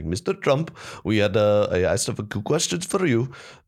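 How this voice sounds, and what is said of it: Imitated thick Indian accent. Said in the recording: “he had a thick Indian accent... it is very thick”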